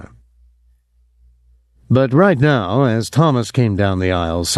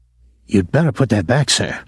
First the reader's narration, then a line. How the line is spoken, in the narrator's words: Thomas whispered